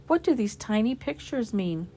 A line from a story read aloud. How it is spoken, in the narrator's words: smiled sadly